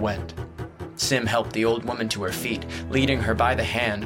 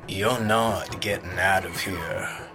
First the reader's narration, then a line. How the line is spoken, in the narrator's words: the jackdaw rumbled, his words vibrating against the inside of Lee's arm